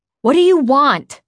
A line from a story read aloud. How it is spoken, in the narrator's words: I demanded as loudly as I could without Matt hearing me